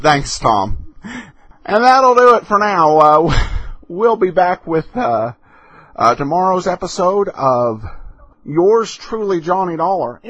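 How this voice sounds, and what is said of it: Noticeable accent. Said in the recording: “I'm finally getting used to your accent... What is this accent people keep talking about?”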